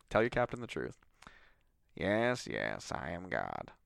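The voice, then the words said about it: Morgan Freeman impression. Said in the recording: “Do I sound like Morgan Freeman? ... You sound like Jimmy Stewart doing a Morgan Freeman impression. ... Yeah, it's there.”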